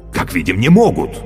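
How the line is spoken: Exclaiming. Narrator (Russian): воскликнул Кощей

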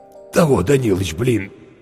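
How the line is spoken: Hoarse. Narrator (Russian): сипло сказал Зверев

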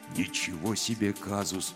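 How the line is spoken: Quiet. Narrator (Russian): тихо сказал Гробус

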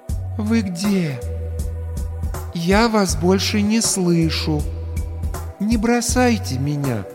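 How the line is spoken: Gentle, clear, as to child. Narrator (Russian): Ласково выдал медмат, отчетливо, как ребенку проговаривая слова

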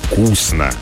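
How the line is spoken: Approving creaky bass. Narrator (Russian): одобрил он своим скрипучим басом

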